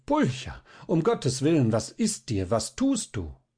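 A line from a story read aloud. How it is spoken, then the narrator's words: Shouting. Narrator (German): Balthasar rief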